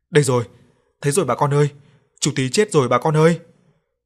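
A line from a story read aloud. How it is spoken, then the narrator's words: Shouting. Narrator (Vietnamese): có người đi ra chỗ cái giếng hoang thì la lên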